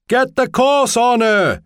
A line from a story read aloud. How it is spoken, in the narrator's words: he shouted